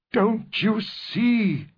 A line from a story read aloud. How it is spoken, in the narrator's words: he cried